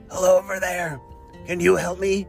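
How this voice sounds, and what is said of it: Scary, lost-sounding rough voice. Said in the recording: “He just heard that scary voice... I just lost my voice”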